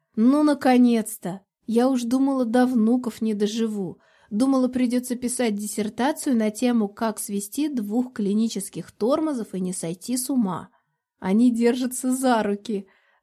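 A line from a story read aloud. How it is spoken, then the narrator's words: Joyful yell. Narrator (Russian): заорал Алекс, сияя, как начищенный медный таз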